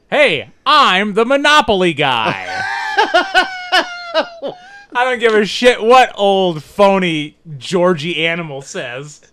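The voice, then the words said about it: Monopoly guy character voice. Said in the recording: “your impression of the Monopoly guy. That's the voice the Monopoly guy would have.”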